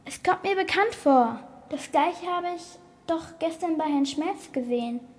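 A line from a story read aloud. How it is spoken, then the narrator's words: Sudden exclamation. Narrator (German): rief Leo plötzlich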